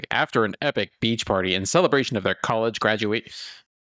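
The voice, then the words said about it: Movie announcer voice. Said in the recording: “movie announcer voice”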